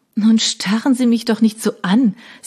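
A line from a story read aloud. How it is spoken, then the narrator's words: Embarrassed laugh. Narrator (German): sagte sie und lachte verlegen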